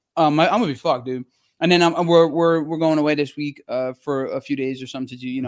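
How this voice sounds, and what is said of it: Slightly hoarse voice. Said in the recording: “my voice has been a little hoarse”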